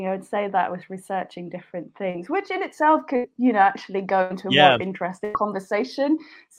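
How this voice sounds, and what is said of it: Scandinavian accent. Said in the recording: “a Scandi accent”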